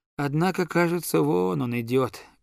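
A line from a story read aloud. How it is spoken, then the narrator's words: Sad voice. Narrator (Russian): прибавил я печальным голосом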